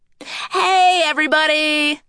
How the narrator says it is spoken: a voice called out

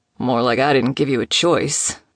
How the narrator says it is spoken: Nico grumbled

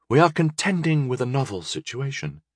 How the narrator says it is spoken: she sighed

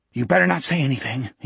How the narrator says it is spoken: he panted

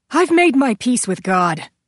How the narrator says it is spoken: Dixon called breathlessly as he broke into a trot

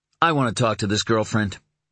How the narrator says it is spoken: Tom said, his voice even and strong once more

